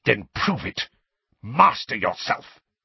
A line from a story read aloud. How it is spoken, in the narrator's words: spat Snape